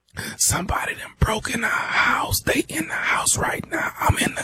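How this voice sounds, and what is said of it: Whispering, very quiet voice. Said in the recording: “Man, speak up. I can't hear you... why in the hell are you whispering?”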